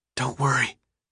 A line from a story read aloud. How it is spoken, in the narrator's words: whispered, hoping they could hear him